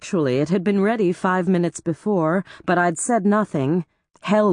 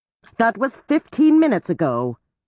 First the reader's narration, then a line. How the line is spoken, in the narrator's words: she snapped